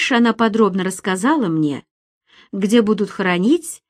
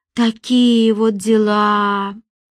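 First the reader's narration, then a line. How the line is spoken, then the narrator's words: Drawling. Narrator (Russian): протянула Ульяна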